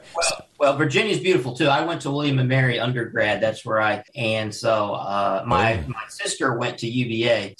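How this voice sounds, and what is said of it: Virginia regional accent. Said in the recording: “listening to your accent makes me want to pull mine out a little bit”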